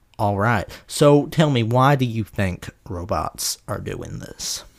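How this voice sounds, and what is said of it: Overblown put-on southern accent. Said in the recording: “I'm going to do the rest of the episode in this possibly offensive and definitely overblown southern accent”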